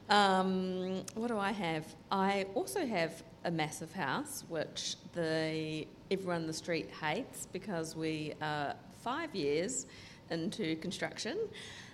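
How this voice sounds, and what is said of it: New Zealand accent. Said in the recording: “my New Zealand accent”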